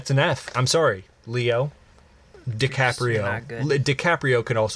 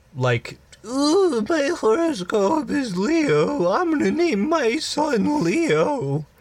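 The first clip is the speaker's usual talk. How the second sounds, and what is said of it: Mocking impersonation voice. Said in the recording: “that impersonation”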